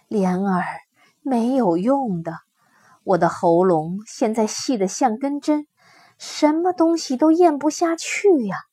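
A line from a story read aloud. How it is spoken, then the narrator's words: Mother sighing. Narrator (Chinese): 母亲叹口气说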